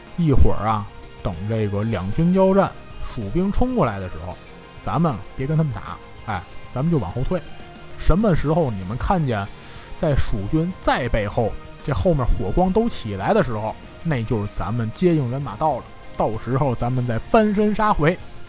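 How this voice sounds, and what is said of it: Quiet, lowered voice. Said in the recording (Chinese): “小声跟周围士兵说”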